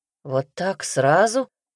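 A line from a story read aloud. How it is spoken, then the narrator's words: Glum mumble. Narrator (Russian): уныло пробормотал он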